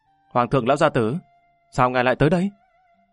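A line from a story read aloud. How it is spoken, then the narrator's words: Smiling, friendly. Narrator (Vietnamese): Lâm Văn Vinh mỉm cười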